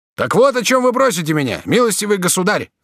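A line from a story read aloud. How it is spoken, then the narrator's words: Shout. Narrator (Russian): закричал конетабль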